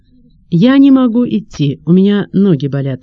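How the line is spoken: Plain. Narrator (Russian): сказала Маруся

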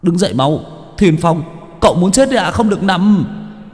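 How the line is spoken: Urgent shout. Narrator (Vietnamese): Chiến biết la lên

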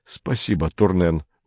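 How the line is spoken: Muttered. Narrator (Russian): пробормотал он

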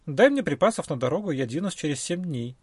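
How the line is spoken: Plain. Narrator (Russian): ответил брахман

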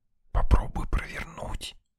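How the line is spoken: Whispered prompt. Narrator (Russian): шепотом подсказала Лена

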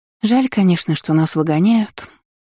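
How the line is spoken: Sad sigh. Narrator (Russian): вздохнула с тоской Иза

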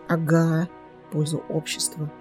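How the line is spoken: Soundless whisper in ear. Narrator (Russian): прошептал одними губами Зар на ухо Киру

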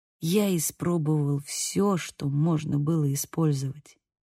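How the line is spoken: Soft voice. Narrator (Russian): сказал Бейл мягким голосом

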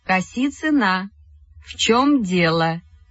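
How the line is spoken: Slow, deliberate speech. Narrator (Russian): Медленно и раздельно сказала Вера Евстигнеевна

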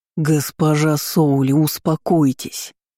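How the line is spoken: Near growl. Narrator (Russian): Ночной гость почти рычал

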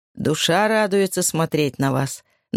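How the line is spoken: Plain. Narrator (Russian): наконец сказал он

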